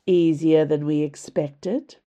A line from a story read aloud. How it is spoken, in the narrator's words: drawled Valyria